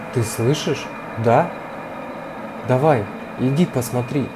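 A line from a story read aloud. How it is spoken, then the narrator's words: Quiet, mother. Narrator (Russian): сказала тихо мама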